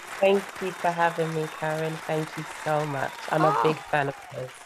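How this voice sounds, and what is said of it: British accent. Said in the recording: “accent means you're from across the pond. I guess you are British.”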